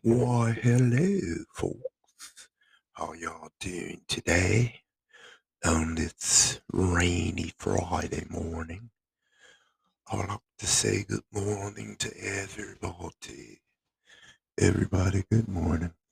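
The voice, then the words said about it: Put-on accent. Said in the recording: “Do you know I fooled somebody with that accent?”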